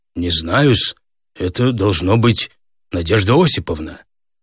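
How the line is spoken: Confused muttering. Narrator (Russian): растерянно пробормотал

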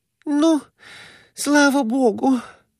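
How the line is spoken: Moaning. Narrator (Russian): простонала Глафира Семеновна

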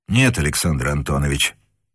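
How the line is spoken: Quiet reply. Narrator (Russian): также негромко ответил Невельской

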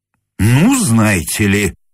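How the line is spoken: Indignant grumble. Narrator (Russian): возмущенно буркнул господин Семенов

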